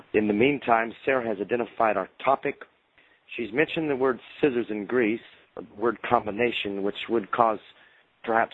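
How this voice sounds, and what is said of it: Hoarse, failing voice from illness. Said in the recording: “If you haven't or can't detect it, I'm losing my voice. I'm a bit ill”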